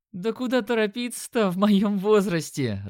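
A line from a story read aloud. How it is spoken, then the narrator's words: Woman laughing. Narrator (Russian): рассмеялась женщина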